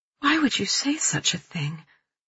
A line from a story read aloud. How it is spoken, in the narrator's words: I ask, my voice quiet, hurt